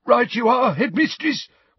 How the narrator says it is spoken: wheezed Filch

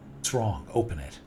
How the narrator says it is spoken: said James

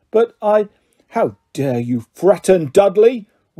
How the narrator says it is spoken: roared Uncle Vernon, pounding the table with his fist

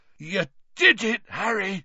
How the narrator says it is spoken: said Hagrid hoarsely

